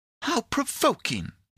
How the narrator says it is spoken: exclaimed Pandora, pouting her lips

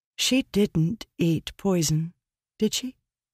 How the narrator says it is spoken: Shallan asked softly

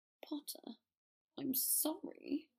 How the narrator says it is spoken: Draco mumbled

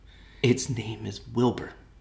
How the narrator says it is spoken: she whispered to herself

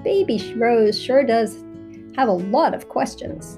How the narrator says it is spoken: GROUNDO laughed again and said

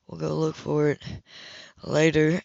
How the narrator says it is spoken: he groaned

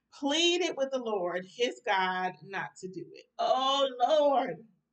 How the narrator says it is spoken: he exclaimed

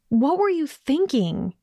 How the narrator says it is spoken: she blurted before she could douse the urge

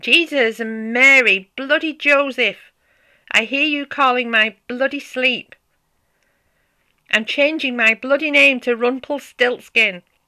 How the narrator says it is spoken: exclaiming

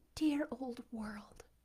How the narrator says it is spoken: murmured

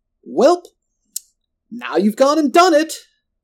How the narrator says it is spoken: Roland hollered after me

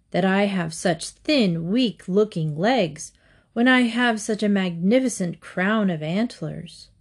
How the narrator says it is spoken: sighed

